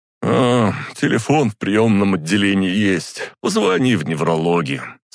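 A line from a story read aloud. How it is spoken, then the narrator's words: Sleepy mumble. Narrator (Russian): сонно пробормотал он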